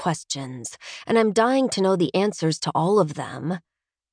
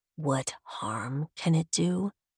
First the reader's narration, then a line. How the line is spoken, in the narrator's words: He murmurs